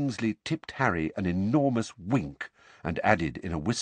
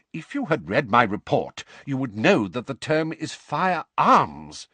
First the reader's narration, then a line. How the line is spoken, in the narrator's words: said Mr